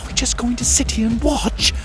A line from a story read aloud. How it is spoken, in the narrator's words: Em whispered